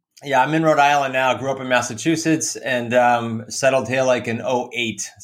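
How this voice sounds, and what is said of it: Thick New England accent. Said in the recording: “You got a thick Nor'easter accent going there.”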